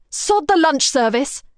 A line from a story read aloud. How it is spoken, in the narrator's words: Kara shouts